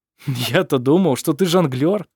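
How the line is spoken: Laughing. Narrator (Russian): смеялся Хейке

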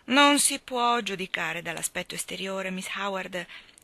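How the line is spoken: Plain. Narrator (Italian): rispose

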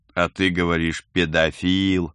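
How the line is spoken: Amused snort. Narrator (Russian): хмыкнул Герман

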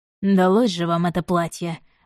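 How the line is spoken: Priest's growl. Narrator (Russian): прорычал святой отец

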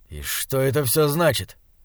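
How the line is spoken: Irritated question. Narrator (Russian): раздраженно спросил Слудик

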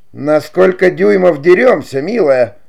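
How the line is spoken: Exclamation. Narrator (Russian): воскликнула Кларита

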